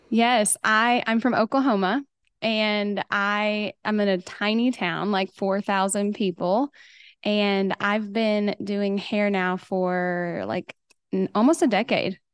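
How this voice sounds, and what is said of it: Slight regional American accent. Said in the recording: “I hear a little bit of an accent in your voice”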